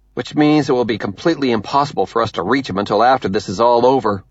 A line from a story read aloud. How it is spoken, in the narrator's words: Avi snaps